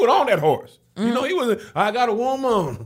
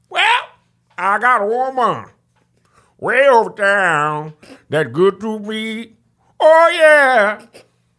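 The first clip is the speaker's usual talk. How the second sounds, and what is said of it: Imitates another person's singing voice. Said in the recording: “my Ray Charles impersonation ... One of my best”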